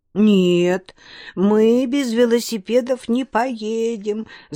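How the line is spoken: Girls sobbing harder. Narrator (Russian): зарыдали девчонки пуще прежнего

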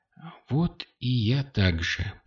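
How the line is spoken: Whisper. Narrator (Russian): прошептала она

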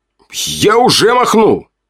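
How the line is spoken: Barked. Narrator (Russian): рявкнул Белк

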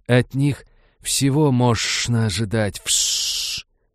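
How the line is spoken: Furious hissing. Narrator (Russian): Ксеносы снова принялись яростно шипеть между собой

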